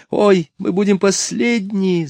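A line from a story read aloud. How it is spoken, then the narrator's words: Frightened squeal. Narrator (Russian): запищала мисс Глициния, потому что они зависли сейчас на самом верху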